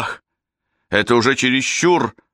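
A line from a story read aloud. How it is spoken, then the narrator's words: Yelling. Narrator (Russian): вопит он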